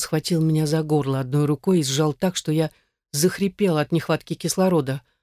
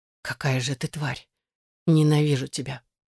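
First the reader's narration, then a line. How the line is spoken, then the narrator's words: Hissed in the face. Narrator (Russian): Прошипела ему в лицо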